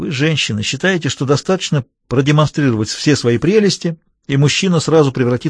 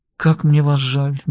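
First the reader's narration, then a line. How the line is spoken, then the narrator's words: Soft and gentle. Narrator (Russian): мягко произнесла она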